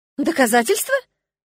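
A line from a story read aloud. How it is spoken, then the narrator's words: Two voices, surprised and indignant. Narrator (Russian): воскликнули мы с Эрионом одновременно, только я с удивлением, а он возмущенно раздувая ноздри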